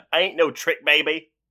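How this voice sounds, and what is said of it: Put-on accent quoting Reese Witherspoon. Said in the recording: “I'm glad that we got the accent out of the way early as well ... dramatic readings of Reese Witherspoon's lines”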